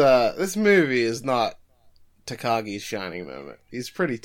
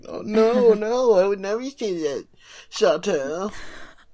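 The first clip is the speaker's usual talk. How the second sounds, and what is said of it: Imitates another person's voice. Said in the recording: “Takagi doesn't sound like that ... He's doing that voice.”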